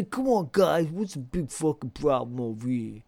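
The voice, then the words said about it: Exaggerated Brooklyn/Bronx New York accent. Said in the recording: “he talks like this. He's got this really bad accent ... total like fucking Brooklyn or Bronx or whatever ... New York”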